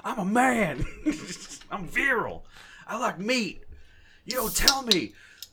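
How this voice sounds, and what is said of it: Yelling ranting imitation of another person. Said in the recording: “an Alex Jones-style rant ... and I'm yelling,”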